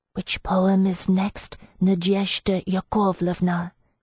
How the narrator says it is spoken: she breathed, her voice husky with what I identified as sexual anticipation

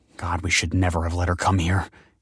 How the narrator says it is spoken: hissed Michael

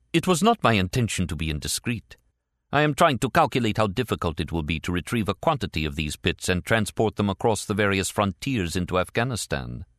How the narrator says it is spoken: Daoud said quickly

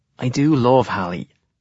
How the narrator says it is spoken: he says

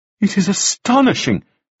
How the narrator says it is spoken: cried Mrs

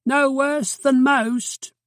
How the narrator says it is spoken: shouted

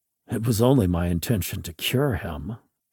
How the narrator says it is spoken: I mumbled to myself

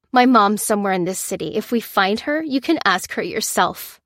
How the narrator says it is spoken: she snapped

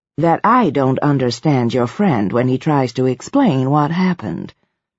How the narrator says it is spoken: she said, in an even tone that seemed impartial but implied disapproval

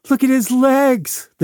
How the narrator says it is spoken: They screamed

